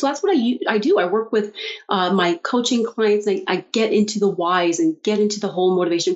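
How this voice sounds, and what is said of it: Canadian accent. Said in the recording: “Do I hear a Canadian accent? ... I think you might have.”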